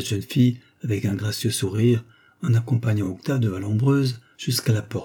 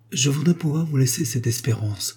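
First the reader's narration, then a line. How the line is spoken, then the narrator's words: Grave tone. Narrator (French): reprit l'avocat d'un ton grave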